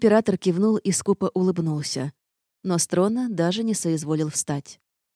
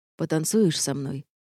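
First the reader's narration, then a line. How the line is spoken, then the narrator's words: Quiet question. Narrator (Russian): негромко спросил Рейнард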